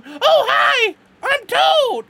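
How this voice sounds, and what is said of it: Cartoon Toad character voice. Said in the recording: “doing the Toad voice”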